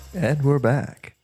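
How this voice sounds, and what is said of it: Radio announcer voice. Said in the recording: “I love your radio voice.”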